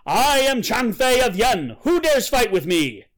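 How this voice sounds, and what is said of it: Loud, thunderous shouting voice. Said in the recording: “in a mighty voice, he shouted ... this thunderous voice”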